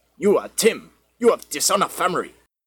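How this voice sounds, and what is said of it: Poor put-on Jamaican accent. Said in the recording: “That was the worst Jamaican accent ever.”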